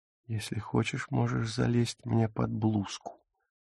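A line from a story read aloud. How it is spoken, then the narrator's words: Whisper. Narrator (Russian): шепнула она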